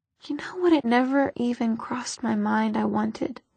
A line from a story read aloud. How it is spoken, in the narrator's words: she said